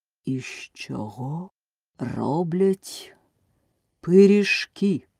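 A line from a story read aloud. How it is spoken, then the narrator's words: Menacing question. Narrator (Ukrainian): спитав страшним голосом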